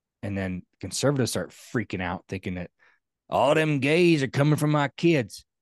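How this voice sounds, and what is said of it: Put-on stereotyped conservative accent. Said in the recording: “I don't know if conservatives sound like that, but I like to do the accent.”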